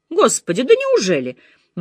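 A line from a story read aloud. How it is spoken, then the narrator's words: Exclamation. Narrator (Russian): воскликнула мисс Марпл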